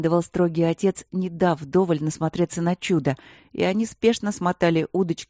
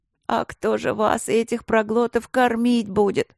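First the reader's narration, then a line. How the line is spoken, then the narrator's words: Suffering groan. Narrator (Russian): страдающим голосом простонала повариха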